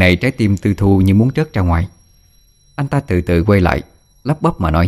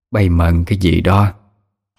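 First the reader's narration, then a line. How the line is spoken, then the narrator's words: Deep hoarse voice, asking. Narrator (Vietnamese): bà hai cất tiếng ồm ồm hỏi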